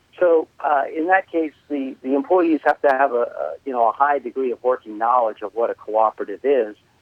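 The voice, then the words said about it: New York accent. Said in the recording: “people might be able to tell from my accent that I'm originally from New York.”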